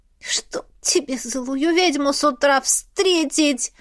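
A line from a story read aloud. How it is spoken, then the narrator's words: Muffled groan. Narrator (Russian): Застонала я, накрывая голову подушкой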